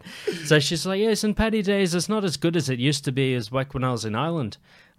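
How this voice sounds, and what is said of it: Imitated Irish accent. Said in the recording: “I can't do an Irish accent ... Keep the accent ... I got to keep the accent. So if I redo the accent”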